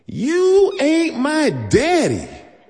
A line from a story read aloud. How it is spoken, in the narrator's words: she screamed